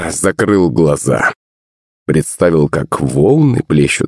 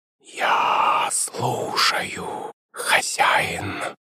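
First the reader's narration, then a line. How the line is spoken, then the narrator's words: Creature's hiss inside head. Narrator (Russian): прошипело существо у меня в голове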